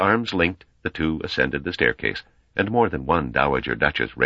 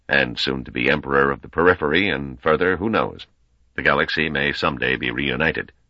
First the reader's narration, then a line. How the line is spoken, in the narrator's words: Weenus added blandly